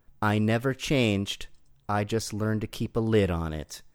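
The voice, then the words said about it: Imitates another person's voice. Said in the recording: “your best Rambo impression ... That sounded like Sylvester Stallone”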